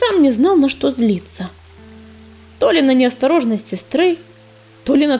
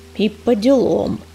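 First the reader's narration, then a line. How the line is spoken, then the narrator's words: Words squeezed through teeth. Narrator (Russian): процедил ураган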